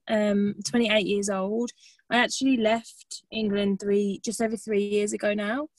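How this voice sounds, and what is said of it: Birmingham English accent. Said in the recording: “I'm from Birmingham, if you can't tell from my lovely accent.”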